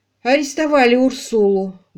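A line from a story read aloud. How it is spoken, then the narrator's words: Muffled, hollow voice. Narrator (Russian): глухо сказал он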